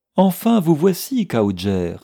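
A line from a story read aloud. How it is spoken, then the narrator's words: Exclaiming. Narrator (French): s'écria Madame Rhodes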